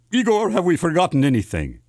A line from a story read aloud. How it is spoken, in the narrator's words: the doctor asked